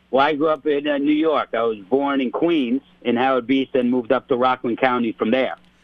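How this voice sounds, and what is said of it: Strong Italian-American New York accent. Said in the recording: “you could probably tell from his voice, you're an Italian-American ... you get an accent that strong”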